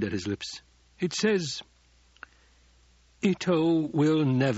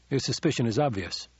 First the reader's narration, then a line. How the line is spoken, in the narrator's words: the Duke said, and his voice was suddenly cold